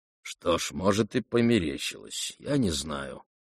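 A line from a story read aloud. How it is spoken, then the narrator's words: Muttering. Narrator (Russian): бормотал Парфен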